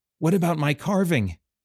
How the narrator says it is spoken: pleaded

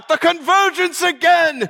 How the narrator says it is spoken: Caspar cried out

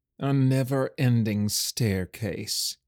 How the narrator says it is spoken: groaned

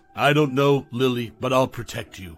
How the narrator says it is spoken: he said, his voice firm despite the quiver of fear

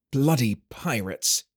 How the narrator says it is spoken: muttered

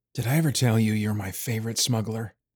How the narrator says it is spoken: Bertram whispered in her ear

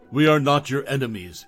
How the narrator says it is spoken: he repeated, his voice a clear, unwavering force

